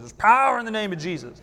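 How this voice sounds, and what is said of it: Preacher voice. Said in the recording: “That's my preacher voice.”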